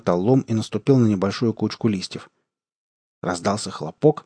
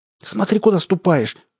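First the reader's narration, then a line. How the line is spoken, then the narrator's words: Frightened cry. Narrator (Russian): испуганно вскрикнула Алиса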